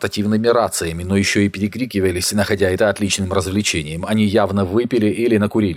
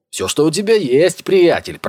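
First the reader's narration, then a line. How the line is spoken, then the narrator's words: Shouted reply. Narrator (Russian): прокричал в ответ один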